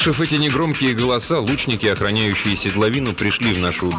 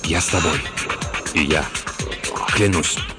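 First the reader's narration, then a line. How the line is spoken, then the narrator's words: Whispers one by one. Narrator (Russian): Остальные один за другим стали шептать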